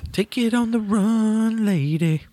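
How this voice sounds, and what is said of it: Sung rock band singer impression. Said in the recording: “my REO Speedwagon impression”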